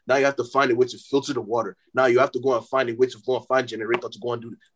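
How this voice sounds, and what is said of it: African accent, heated rant. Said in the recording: “My African accent is coming out. ... I'm getting mad.”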